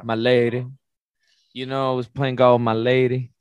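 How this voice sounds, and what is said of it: Put-on Southern accent. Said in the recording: “I want to say with a southern accent ... it's got to be Southern ... Southern for sure”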